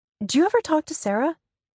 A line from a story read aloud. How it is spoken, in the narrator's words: I blurt out, my voice a full octave higher than usual